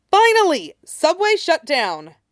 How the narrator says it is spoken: Red Robin replied before exclaiming

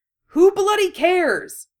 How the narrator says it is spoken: Harry shouted

